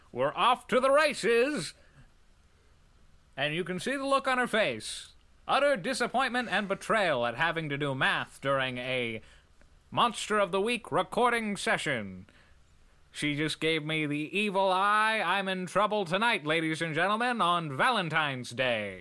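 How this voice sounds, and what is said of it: Fake announcer voice. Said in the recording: “fake announcer voice ... I like the voice.”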